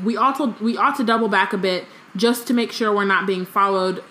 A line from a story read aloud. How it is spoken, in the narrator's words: Moody shouted